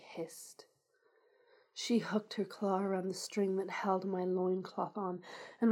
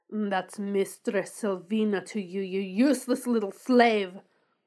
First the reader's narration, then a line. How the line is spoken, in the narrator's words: She snarled with a dominance that I couldn't resist